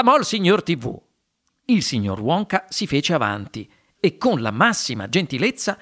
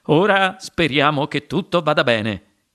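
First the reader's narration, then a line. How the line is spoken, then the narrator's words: Plain. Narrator (Italian): disse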